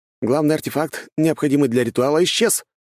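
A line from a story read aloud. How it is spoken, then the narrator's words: Agitated speech. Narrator (Russian): взволнованно сказал Сёмушкин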